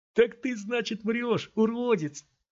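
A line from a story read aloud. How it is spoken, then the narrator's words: Thin, tense laugh. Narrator (Russian): сказал парень, тонко и напряженно засмеявшись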